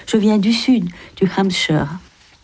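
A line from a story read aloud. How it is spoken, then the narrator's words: Sighing reply. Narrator (French): répondit Margaret avec un soupir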